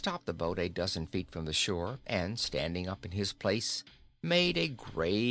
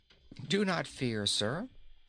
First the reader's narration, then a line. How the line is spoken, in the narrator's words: answered Inga in a calm voice